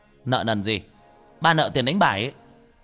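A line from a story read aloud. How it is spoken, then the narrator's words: Loud angry shout. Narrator (Vietnamese): giằng đũa quát lớn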